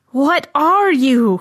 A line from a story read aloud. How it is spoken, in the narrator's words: he howled